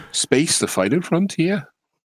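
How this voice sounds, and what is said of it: Put-on Welsh accent. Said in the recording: “You could go Welsh with it, maybe.”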